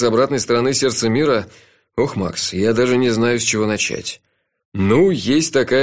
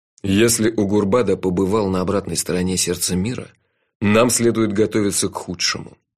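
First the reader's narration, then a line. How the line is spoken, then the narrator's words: Grim. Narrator (Russian): мрачно сказал Джуфин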